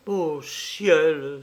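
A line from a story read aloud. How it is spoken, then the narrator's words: Exclaimed. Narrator (French): s'écriait-elle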